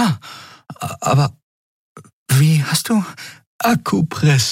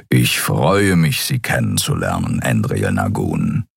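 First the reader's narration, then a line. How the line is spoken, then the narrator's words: Purring voice. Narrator (German): sagte er mit schnurrender Stimme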